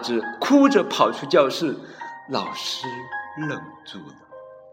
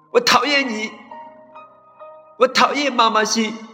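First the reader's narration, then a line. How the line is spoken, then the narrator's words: Loud. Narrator (Chinese): 阿志大声的对老师说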